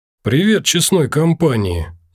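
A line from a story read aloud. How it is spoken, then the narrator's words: Youth's forced cheerful greeting. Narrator (Russian): нарочито бодро начал паренек на вид лет 20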